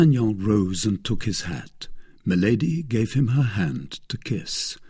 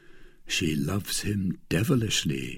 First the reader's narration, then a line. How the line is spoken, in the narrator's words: murmured